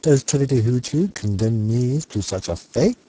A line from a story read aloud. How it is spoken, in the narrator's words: He asked in a hoarse voice